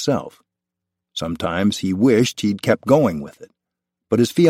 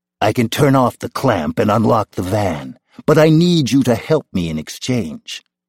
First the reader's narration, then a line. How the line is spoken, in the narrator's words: the voice said